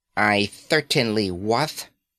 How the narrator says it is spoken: lisped the Irwadian, his eyes blazing with drunken hatred

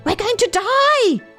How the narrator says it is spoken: They shrieked

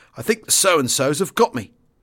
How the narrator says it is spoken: Tony Murray walked somewhat shakily into Wing HQ and remarked

